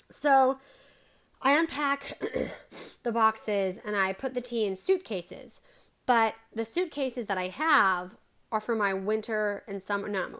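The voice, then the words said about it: Hoarse, strained voice. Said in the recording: “I'm drinking it now for my voice because holy cow, I lost my voice.”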